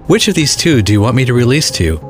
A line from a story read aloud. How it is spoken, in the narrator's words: asked the governor